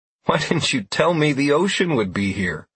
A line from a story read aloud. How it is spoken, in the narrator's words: I asked with a good-natured laugh